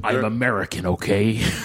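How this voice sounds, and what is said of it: Put-on American accent. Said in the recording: “That's a good American accent. ... It's not bad, but they all end up sounding like Liam Neeson.”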